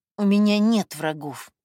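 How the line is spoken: Through clenched teeth. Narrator (Russian): процедила Катя

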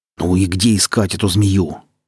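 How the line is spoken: Angry hiss. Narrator (Russian): зло прошипел Фиран

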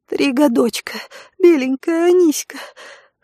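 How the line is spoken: Wheezing, delirious pleading woman. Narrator (Russian): хрипя слова на выдохе, словно в бреду, просила рабыня

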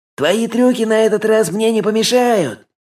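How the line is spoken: Yelling. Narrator (Russian): завопил

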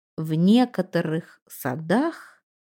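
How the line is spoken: Thoughtful explanatory tone. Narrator (Russian): проговорил Лонг Джон Бич задумчивым тоном, как будто пояснял что-то, сказанное раньше

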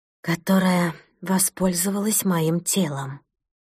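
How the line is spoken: Quiet. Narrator (Russian): тихо закончила Маша

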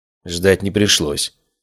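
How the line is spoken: Gruff mutter. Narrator (Russian): буркнул Леон

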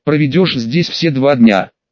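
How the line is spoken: Giggling. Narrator (Russian): хихикнула Астрид

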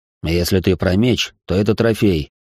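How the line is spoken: Grumbled. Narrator (Russian): проворчал я

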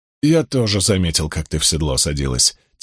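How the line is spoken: Quiet reply. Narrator (Russian): тихо ответил Ранд

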